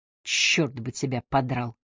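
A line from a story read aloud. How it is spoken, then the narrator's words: Gloomy mutter. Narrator (Russian): мрачно пробормотал Уилл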